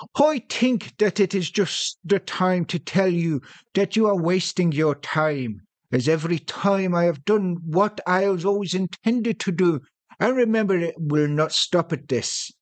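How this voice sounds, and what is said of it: Fake Irish accent. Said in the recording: “he's using a fake Irish accent ... I am in this version, yes.”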